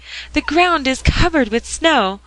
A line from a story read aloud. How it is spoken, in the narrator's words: exclaimed in great glee